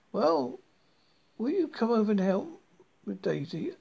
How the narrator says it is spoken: I pleaded

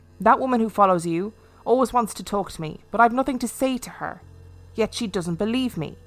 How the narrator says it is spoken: The lady replied sharply

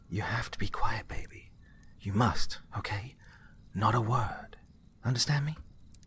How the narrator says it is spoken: She whispered to him

